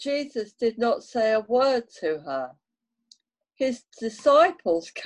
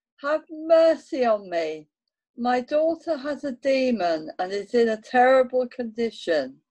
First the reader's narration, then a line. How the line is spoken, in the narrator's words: she cried out